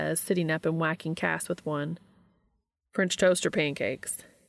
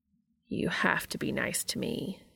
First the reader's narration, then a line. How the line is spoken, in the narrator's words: Cass says very solemnly